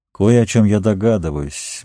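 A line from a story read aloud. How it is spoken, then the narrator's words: Gloomy pronouncement. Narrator (Russian): мрачно изрек Сэм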